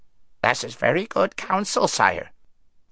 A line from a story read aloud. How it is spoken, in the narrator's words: croaked the raven